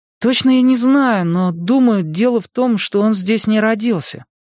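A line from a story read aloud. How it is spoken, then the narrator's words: Uncertain reply. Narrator (Russian): неуверенно ответил Майк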